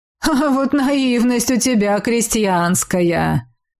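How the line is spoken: After laughing. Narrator (Russian): отсмеявшись, ответил он

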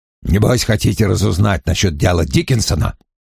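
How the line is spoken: Muttering under breath. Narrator (Russian): бурчал себе под нос Крэмер

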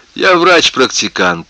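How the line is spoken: Plain. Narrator (Russian): ответил он

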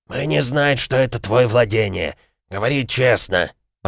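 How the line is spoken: Goblin's hoarse wheeze. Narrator (Russian): прохрипел гоблин

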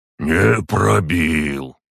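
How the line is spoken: Hoarse speech. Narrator (Russian): хрипло проговорил менталист

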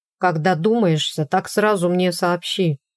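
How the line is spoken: Gruff mutter, young man. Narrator (Russian): почти грубо буркнул парень

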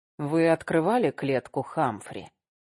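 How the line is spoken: Quiet question. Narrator (Russian): спросил тихо

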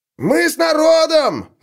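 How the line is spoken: Shouting. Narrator (Russian): заорал он

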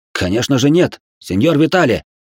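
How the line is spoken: Frightened cry. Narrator (Russian): испуганно вскрикнул он

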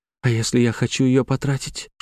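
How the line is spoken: Whispering. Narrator (Russian): шепнула она

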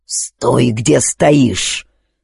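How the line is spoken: Hoarse bass voice. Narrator (Russian): раздался за спиной хриплый бас

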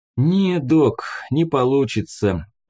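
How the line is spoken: Sigh. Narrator (Russian): вздохнул каштан

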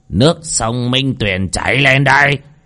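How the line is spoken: Ghost soldier shouting. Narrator (Vietnamese): Một âm binh quát

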